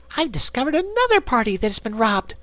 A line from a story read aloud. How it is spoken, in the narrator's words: shouted Scraps